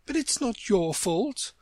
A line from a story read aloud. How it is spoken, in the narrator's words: the rose added kindly